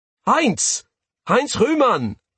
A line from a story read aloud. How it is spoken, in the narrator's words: yell, startling the men nearby